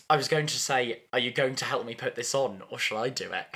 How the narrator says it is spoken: He laughs

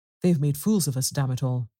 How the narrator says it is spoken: Chekhovsky cried

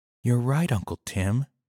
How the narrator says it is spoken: whispered

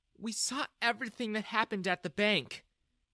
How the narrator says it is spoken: Jessica said sadly

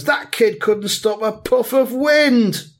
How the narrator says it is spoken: another one shouts

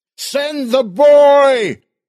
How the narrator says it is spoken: Earl yelled

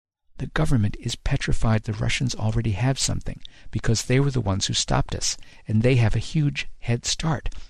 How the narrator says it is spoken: he whispered so low I could barely hear him even with our heads together

